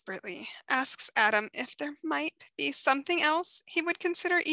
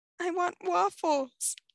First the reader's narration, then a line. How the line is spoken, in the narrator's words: Adam whimpers, cowering behind his mother